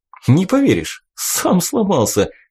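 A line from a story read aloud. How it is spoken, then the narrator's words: Short laugh. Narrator (Russian): хохотнул мой друг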